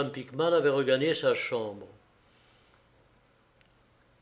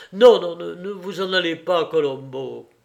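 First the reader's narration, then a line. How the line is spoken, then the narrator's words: Exclaimed. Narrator (French): s'écria Pickman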